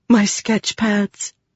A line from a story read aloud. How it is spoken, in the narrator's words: she whispered